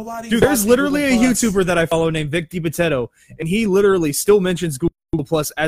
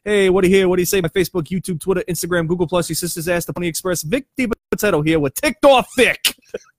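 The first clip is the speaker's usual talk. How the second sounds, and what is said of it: Put-on New York accent. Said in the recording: “You did that accent way too damn well. ... It's something about a New York accent”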